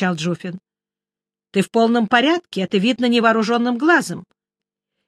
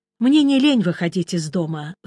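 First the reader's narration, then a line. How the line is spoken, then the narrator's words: Sighing. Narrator (Russian): вздохнул я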